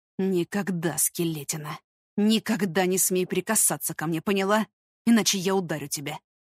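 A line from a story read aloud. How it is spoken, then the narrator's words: Near whisper. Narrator (Russian): Он сказал это тихо, почти шепотом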